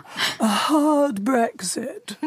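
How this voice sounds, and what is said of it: Margaret Thatcher impression. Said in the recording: “my Margaret Thatcher impersonation”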